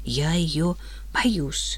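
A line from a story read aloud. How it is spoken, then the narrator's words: Frightened girl's whisper. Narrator (Russian): шепотом сказала девочка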